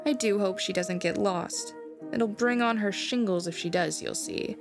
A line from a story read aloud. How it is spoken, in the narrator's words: said Miss Forcible